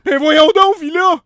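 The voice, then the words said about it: Imitates another person's voice. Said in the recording (French): “j'ai déjà gagné le 3e prix d'un concours d'imitation de Marina Orsini ... Ah, mais t'es bon!”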